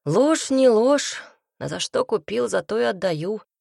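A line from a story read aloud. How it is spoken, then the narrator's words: Tired. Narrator (Russian): ответил Нахди устало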